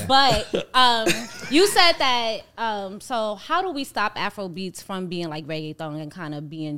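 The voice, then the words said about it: New York accent. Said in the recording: “my New York accent gets me so far in life ... Everybody loves a New York accent.”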